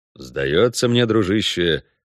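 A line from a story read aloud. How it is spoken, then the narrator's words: Gloomy drawl. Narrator (Russian): мрачно протянул Геральт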